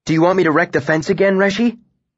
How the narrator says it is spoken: Bast said eagerly

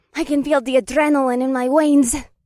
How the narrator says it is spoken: Revna cried out

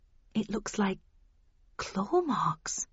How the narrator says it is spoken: I murmured

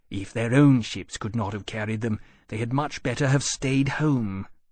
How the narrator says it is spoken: he snorted and said

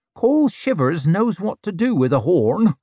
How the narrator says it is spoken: she barked out a cackle

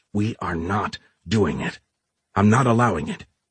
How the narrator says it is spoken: hissed

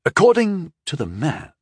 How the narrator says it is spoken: he said slowly

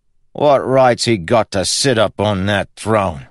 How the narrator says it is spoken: grumbled

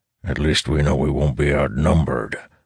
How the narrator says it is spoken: Barris grumbles under his breath

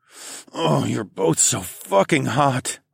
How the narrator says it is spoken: moaned

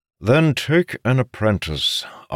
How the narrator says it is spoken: Arenil said through clenched teeth

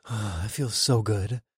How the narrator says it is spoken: I moaned

